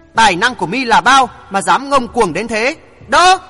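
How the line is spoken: Monster's roar. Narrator (Vietnamese): Lão quái vật gầm lên

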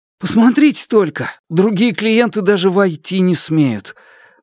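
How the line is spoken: Sigh. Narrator (Russian): Малян вздохнул

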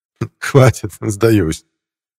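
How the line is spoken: Laughing. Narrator (Russian): рассмеялся Косыгин

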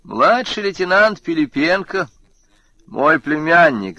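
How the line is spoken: Laughing. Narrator (Russian): засмеялся Радин

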